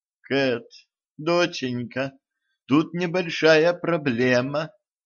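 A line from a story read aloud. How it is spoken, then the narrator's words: Timid. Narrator (Russian): робко сказала она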